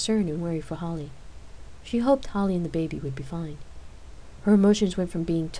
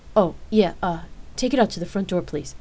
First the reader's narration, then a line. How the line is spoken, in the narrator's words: Rain stammered